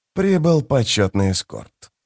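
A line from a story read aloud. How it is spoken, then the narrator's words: Dry remark. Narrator (Russian): сухо заметил Кальп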